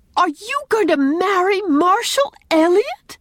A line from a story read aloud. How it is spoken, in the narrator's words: exclaimed Anne, recovering her power of speech under this second shock